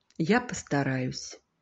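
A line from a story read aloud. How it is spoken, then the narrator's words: Quiet. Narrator (Russian): Сережа негромко сказал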